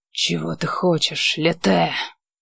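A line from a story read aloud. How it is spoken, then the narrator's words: Demanding growl. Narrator (Russian): требовательно прорычал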